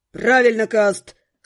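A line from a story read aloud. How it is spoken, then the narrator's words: Growled. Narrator (Russian): рыкнул кто-то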